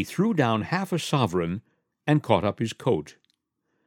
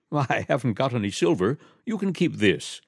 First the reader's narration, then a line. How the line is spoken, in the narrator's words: the strange gentleman said, laughing